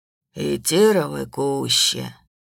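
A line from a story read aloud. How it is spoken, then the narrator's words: Sigh. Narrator (Russian): вздохнул медведь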